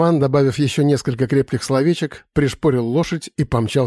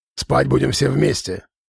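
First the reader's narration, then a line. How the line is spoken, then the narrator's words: Grumbling. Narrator (Russian): проворчал шаман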